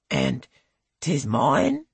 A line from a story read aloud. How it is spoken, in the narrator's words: He croaks